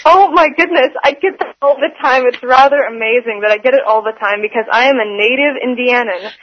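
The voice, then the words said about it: Nasal, precise North American accent. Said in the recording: “You sound like you're from Vancouver, British Columbia ... I just have a general East Coast kind of accent ... I guess it's kind of my nasal way of speaking ... you have a very clear, precise, correct diction”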